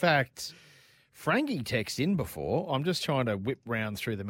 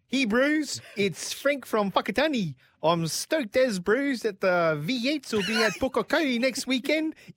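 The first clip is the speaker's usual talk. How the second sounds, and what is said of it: Put-on New Zealand accent. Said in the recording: “my best New Zealand accent ... I don't think I'll be able to do it.”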